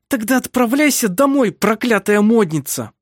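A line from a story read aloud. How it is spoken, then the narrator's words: Hiss through teeth. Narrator (Russian): Прошипела сквозь зубы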